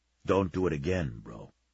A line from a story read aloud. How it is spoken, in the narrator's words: Savage said softly